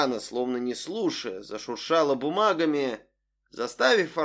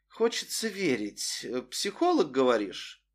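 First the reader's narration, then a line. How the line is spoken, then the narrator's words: Thoughtful drawl. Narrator (Russian): задумчиво протянула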